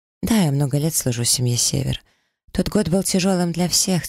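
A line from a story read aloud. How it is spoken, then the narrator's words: Heavy sigh, shapeshifter. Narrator (Russian): тяжело вздохнул перевертыш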